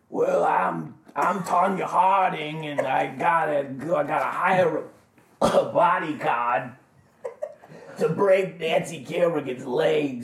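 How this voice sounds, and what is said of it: Put-on Brooklyn accent. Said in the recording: “I only have one accent, and it's a guy from Brooklyn. But I use it for everything.”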